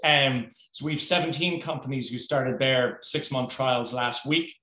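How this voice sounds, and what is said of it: Irish accent. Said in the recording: “in Ireland, which is where I'm originally from, as you can probably tell from the ... accent”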